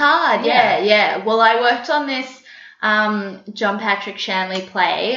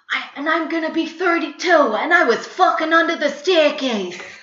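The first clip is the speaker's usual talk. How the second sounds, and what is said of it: Put-on New York accent. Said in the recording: “that's how I kind of learned to do a New York accent”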